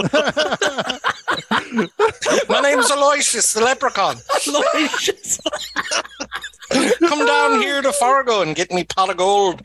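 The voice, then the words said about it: Leprechaun character voice. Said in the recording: “you just turned into a freaking leprechaun”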